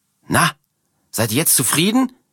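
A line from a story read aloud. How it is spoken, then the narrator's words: Shouting at strangers. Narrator (German): schreit Martha die beiden Fremden an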